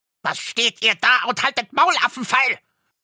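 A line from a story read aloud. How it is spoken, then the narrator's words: Dwarf screaming in rage. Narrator (German): schrie der Zwerg, sein Gesicht war zinnoberrot vor Zorn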